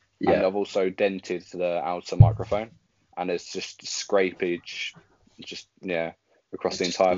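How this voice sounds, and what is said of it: Very posh-sounding accent. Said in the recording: “you know from my accent or from my voice, I sound very posh”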